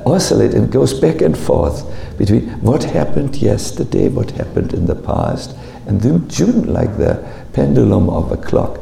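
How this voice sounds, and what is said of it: Heavy non-native English accent. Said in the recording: “I'm not a native English speaker, by now you know, by my heavy accent.”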